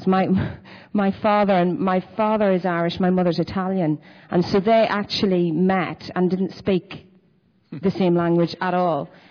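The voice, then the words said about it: Northern Irish accent. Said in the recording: “to play something in my own accent ... when I grew up in Northern Ireland”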